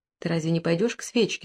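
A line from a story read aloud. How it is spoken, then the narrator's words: Dejected question. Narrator (Russian): спросил он упавшим голосом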